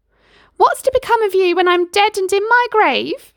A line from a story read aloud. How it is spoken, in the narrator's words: she would wail